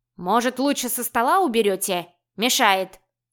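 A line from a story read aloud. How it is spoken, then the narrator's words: Barked. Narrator (Russian): гаркнул Бубрик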